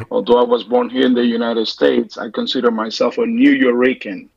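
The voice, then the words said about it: Puerto Rican accent. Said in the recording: “my accent, my beautiful accent”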